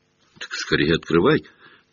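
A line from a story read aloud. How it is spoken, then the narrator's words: Quiet. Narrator (Russian): так же тихо проговорил Невилл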